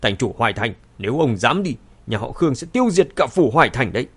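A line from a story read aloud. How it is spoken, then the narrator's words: Sudden angry speech. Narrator (Vietnamese): Khương Nham lập tức biến sắc, tức giận nói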